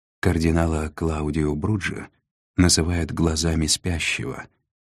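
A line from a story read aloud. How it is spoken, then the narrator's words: Gentle reminder. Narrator (Russian): мягко напомнил Нав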